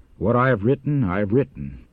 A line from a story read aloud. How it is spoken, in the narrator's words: He replied coldly